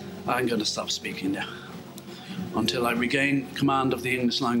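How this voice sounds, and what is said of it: Usual voice. Nothing is said of it.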